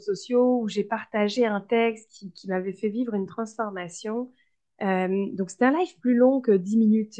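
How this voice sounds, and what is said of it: French accent from France. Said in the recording (French): “j'ai un accent, ça s'entend ... la française”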